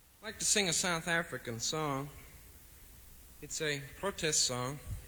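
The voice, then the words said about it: Southern American accent. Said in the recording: “You have to pardon the southern accent.”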